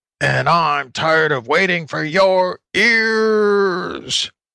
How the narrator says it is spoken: howled the wolf

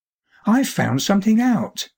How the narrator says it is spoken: suddenly exclaimed Alec in a curious voice

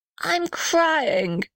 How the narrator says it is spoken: sobbed the little red house

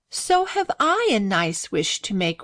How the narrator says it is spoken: replied Grace with a sigh

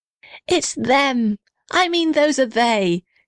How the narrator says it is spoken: shouted the little red house happily

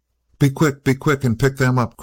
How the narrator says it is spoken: cried the man

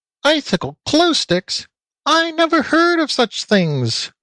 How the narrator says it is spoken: squealed Floppy, the little piggy chap

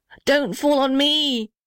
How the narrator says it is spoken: shrieked the little red house

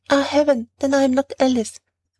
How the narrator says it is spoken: she became really terrified and exclaiming

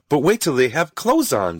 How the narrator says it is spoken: said Rose happily

